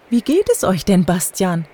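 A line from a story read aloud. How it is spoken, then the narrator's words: Plain. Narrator (German): fragte Tante Monika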